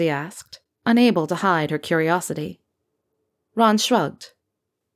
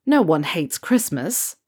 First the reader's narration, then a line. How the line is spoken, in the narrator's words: Ron scoffed, though his grin never left his face